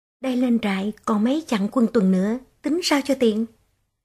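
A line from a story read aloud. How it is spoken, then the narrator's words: Soft whisper. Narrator (Vietnamese): Chợt một bóng khẽ thì thào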